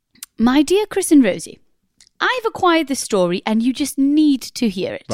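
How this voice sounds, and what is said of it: Put-on posh accent. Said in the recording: “So I thought I might do it in a posh accent.”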